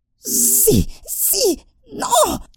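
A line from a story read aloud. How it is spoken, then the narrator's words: Shrill squeal. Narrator (Spanish): chilló Gollum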